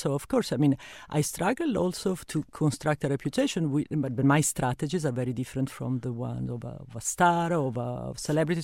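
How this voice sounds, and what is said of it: Italian-accented English. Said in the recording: “I come from Italy ... I have a terrible accent.”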